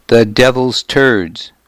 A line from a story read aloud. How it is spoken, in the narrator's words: my father had growled